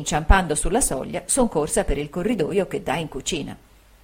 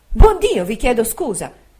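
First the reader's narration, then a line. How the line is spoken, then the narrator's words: Motherly exclamation. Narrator (Italian): col naturale sentimento d'una madre, ho esclamato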